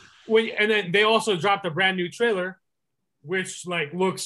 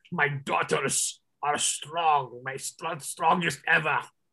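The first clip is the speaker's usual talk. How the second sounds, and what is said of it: Poor imitation of a movie character. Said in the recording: “that was my terrible impression of Red Guardian”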